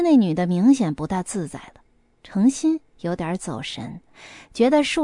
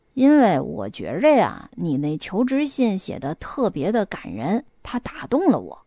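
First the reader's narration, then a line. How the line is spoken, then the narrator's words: Perfunctory half-smile. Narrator (Chinese): 敷衍的撇撇嘴，算是笑笑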